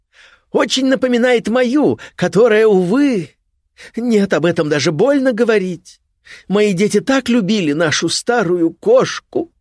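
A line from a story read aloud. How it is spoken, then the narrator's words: Feigned held-back sob. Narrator (Russian): Газаемон притворился, будто сдерживает рыдание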